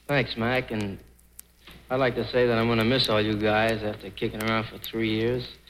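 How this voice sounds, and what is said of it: Slight New Jersey accent. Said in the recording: “there's a touch of Frank Sinatra's New Jersey accent coming through”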